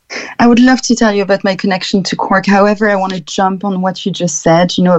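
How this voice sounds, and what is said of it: French accent. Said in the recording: “The beautiful French accent of yours”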